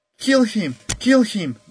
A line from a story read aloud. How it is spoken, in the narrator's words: the mob yelled